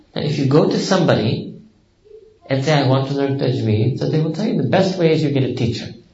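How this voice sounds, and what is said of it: Thick American accent. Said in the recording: “your thick American accent like me”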